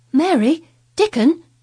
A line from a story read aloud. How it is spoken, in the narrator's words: he cried